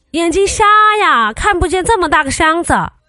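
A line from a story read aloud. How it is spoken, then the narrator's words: Annoyed shout. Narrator (Chinese): 那个大哥有点生气的喊了一句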